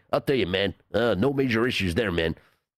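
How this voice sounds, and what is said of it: Poor imitation of another person's voice. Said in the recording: “my terrible John Gruden impression”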